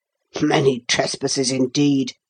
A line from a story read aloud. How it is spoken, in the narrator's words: The captain almost snorted his answer